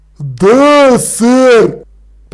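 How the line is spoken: Troll booming. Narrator (Russian): прогремел тролль

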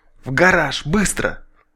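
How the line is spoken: Near-silent whisper. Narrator (Russian): почти беззвучно прошептал

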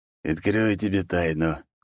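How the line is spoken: Quiet, smiling. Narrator (Russian): тихо сказал он

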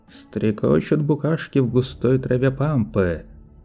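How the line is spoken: Hummed under breath. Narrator (Russian): Манео замурлыкал мотив себе под нос

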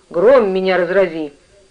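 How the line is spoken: Grumbled. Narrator (Russian): проворчал

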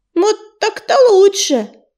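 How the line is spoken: Squeak. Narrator (Russian): пискнула она

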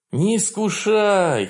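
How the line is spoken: Moaning. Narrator (Russian): простонал я

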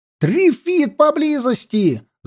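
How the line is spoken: Yelling. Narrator (Russian): заорал я

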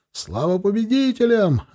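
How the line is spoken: Yelling again. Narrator (Russian): опять заорал сатчан

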